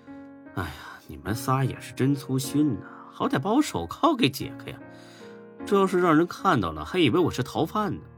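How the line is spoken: Wry mutter. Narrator (Chinese): 孙志苦笑着 嘀咕了一句

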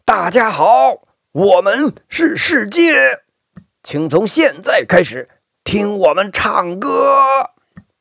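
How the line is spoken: Shouting with all strength. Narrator (Chinese): 似乎用尽全身力气大喊

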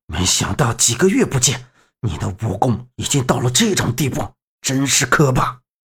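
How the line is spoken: Panting, resentful. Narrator (Chinese): 刘志杰鼻子里喘着粗气， 不甘道

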